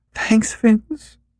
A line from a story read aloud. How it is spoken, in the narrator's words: she breathed tearfully